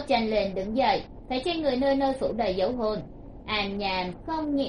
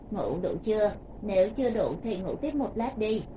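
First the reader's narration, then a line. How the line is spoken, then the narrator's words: Gentle, smiling voice. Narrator (Vietnamese): Từ Thiếu Khiêm cũng mỉm cười một cái, dịu dàng nói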